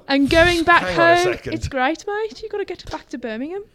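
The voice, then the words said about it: Birmingham accent. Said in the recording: “There's the accent”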